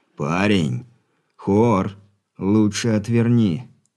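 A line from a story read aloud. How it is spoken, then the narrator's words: Through gritted teeth. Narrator (Russian): Сквозь зубы процедил Алексей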